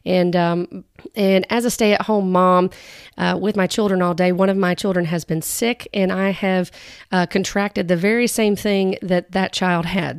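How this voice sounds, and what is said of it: Slightly altered, sick-sounding voice. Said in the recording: “my voice is a little different, it's because I have been battling with some respiratory issues”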